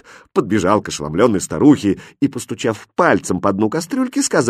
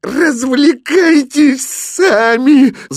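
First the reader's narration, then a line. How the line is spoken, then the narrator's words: Angry shout. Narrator (Russian): зло закричала принцесса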